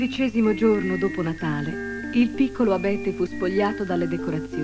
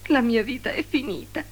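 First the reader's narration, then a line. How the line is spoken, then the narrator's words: Sobbing. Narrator (Italian): singhiozzava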